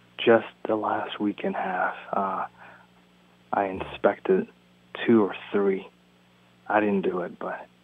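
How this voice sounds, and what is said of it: Whispering quietly. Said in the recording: “Why is he whispering? ... why you're whispering. Why are you talking in your inside voice?”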